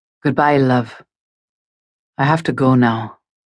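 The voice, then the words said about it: Deep Scottish male voice. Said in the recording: “the Scottish accent. ... the man with the deep, sexy Scottish burr”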